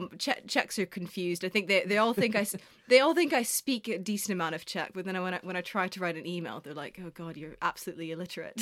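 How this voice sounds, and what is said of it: Mixed American-British accent. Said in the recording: “quite like a Canadian American influenced accent ... my accent's kind of shifted a bit more British, but Americans would say I sound British. British people think I sound American”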